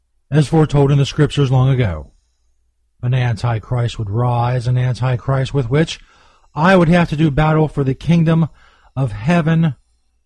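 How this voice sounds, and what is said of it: Dramatic announcer voice. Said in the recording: “let me get my announcer voice.”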